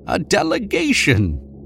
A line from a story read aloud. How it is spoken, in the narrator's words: he said excitedly